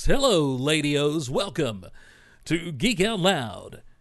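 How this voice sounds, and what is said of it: Put-on radio announcer voice. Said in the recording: “I'm going to start using this Ladio voice ... I don't know if that's much of a radio voice either”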